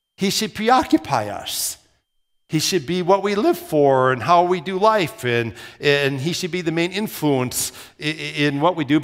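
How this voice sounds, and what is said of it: Minnesota accent with rounded O's. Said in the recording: “they thought I had an accent because I was from Minnesota ... they pointed out that I would kind of roll my O's”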